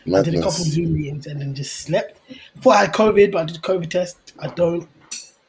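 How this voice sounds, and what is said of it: Sick, slightly failing voice. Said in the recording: “I'm actually really, really ill ... My voice is going a little bit, so sorry to the listeners if I sound like, yeah, just a bit.”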